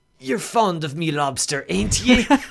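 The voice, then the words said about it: Gruff old sailor voice impression. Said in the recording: “That's the best I can do for a Willem Dafoe impersonation ... Old salt dogs are not my strong suit”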